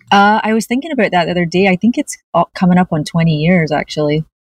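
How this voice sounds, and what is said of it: Scottish accent, light brogue. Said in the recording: “You have a beautiful Scottish accent. ... A wee brogue.”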